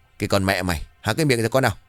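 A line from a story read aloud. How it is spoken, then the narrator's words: Angry yell. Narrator (Vietnamese): Bột bây giờ tức rồi quát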